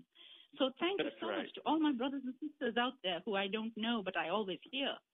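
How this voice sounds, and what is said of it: Indian English accent. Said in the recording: “where's that accent coming from ... I am originally from India.”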